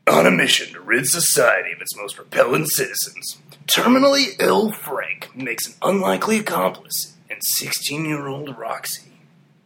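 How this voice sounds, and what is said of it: Dramatic movie-trailer announcer voice. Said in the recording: “doing my best voice of the cinema ... I think you sounded more like we should go to a monster truck rally”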